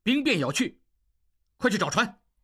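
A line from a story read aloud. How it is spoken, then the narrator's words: Angry. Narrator (Chinese): 应季怒道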